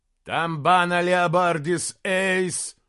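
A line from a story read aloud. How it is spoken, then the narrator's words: Furious, grieving roar. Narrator (Russian): взревел Бенигарис, и его голос был полон ярости и скорби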